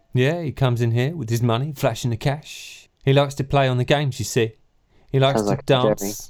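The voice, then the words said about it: Silly put-on character voice. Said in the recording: “I've got a little bit lost in just doing a stupid voice.”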